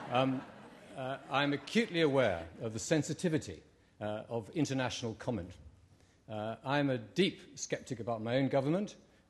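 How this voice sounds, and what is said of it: British accent. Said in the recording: “somebody say it in a British accent.”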